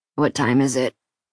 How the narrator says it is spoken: he asked, his voice a croak

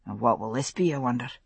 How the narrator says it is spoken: Jamie murmured

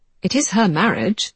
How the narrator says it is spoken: Georgie pointed out dryly

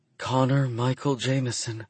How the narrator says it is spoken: she whispers

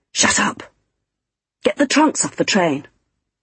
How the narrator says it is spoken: whispered fiercely

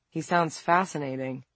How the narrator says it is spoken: Vincent said dryly

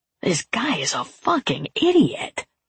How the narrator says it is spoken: Pest whispered

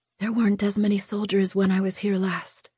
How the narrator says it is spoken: Lu whispered

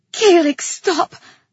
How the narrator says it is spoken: I pleaded

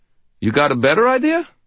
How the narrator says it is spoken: Ramirez asked me cheerfully

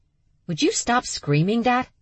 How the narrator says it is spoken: Charlie snapped

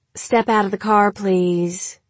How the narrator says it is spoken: she said in the flat drawl of someone extremely bored with her job

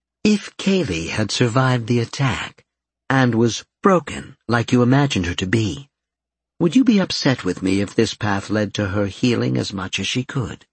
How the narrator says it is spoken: Victoria asked calmly

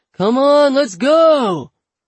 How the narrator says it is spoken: A guy off camera, impossible to tell how far away he is, shouts

